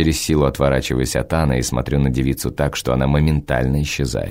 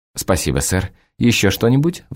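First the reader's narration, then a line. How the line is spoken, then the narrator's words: Excited breathless embarrassed waitress. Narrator (Russian): взволнованно восклицает запыхавшаяся от смущения официантка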